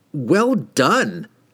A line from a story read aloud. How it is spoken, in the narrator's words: cried the wizard